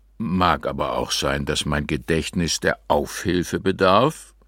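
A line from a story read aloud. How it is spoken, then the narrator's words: Old man croaking, smug. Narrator (German): krächzte der Alte mit einem schäbigen Stolz, dass er wohlhabende Passanten seiner Wenigkeit ausgeliefert fand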